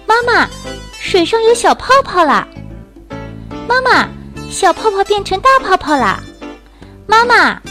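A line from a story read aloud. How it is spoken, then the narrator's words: Excited repeated shouting. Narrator (Chinese): 贝贝……不停地嚷嚷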